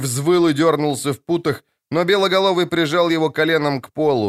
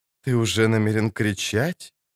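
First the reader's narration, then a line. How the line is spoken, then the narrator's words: Soft purring alto, close. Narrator (Russian): По-кошачьему замурлыкал мягкий альт у самого его уха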